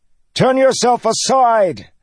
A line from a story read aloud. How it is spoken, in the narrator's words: Kaladin shouted into the churning winds